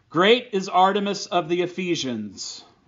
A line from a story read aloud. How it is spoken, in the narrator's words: they became enraged and began to shout